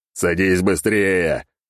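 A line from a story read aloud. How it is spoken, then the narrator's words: Growling. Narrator (Russian): прорычал я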